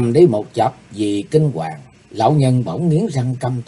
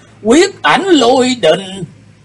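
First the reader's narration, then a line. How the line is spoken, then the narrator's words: Old man's involuntary exclamation. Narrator (Vietnamese): Lão nhân bất giác kêu lên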